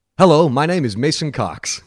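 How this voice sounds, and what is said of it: Put-on American accent. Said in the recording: “America. ... American.”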